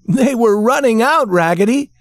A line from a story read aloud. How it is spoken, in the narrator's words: shouted all the other dolls